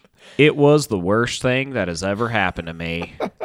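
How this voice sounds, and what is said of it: Put-on Texas accent. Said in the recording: “I'm gonna have to channel my uh, Texas accent here.”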